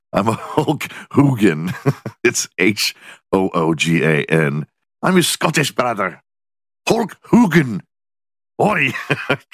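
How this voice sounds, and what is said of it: Put-on Scottish accent. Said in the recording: “Stick to an American accent”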